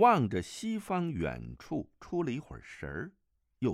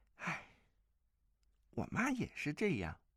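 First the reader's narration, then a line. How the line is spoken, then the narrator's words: Sighing. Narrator (Chinese): 钟灵叹了口气道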